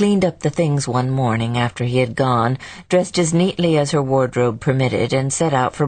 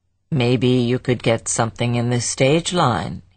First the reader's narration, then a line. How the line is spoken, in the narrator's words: he blandly suggested